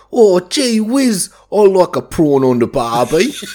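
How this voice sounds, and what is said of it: American's mock Australian accent. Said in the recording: “Australian accent ... Just think of an American doing an Australian accent ... where they go British”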